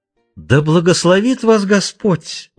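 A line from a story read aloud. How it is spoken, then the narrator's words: Hypocritical exclamation, old man. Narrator (Russian): лицемерно воскликнул старик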